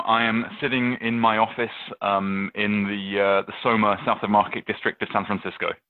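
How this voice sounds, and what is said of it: English accent, slightly softened. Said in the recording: “you have got a wonderful English accent still. You haven't lost it ... my accent's beginning to soften a little bit”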